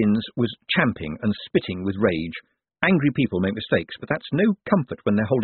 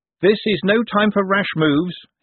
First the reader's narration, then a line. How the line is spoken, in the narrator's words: he said loudly